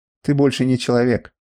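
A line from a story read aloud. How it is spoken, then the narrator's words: Calm. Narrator (Russian): спокойно произнес Телмен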